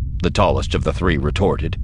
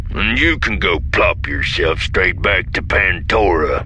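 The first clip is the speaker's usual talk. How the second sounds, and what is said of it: Character voice with a twang. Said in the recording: “There is a distinctive twang to his voice ... It is not identical to Vanto's accent, but with strong similarities, likely indicating similar wild space roots.”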